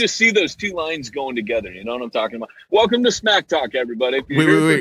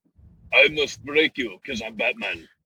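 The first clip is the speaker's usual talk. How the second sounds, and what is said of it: Imitates another person's accented voice. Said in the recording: “Dolph Lundgren ... I don't know what accent he's got.”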